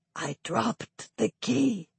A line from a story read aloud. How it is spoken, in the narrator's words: close enough to hear him whisper